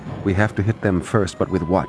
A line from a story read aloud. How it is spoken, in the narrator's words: His young assistant, now Major Sergeyev, spoke quietly